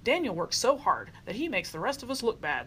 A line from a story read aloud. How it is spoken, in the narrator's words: grumbled